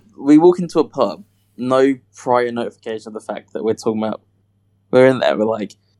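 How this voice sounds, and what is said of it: Usual voice. Nothing is said of it.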